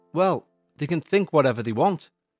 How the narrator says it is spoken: replied John Bell

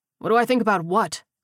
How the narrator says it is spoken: He snapped

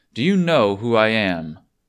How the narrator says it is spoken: was asked loudly

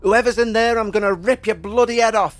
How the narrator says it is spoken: he shouted

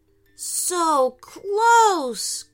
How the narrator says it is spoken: groaned Aiden

